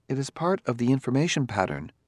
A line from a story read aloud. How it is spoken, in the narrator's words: said Daniil smoothly